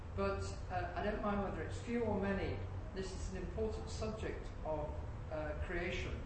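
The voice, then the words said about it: English accent. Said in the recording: “I've got an English accent”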